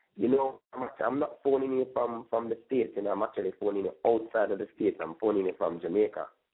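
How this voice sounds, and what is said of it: Jamaican accent. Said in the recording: “I could tell by the accent and then the 876. I know that's like a Jamaican number.”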